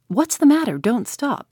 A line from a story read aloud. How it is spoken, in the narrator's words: he cried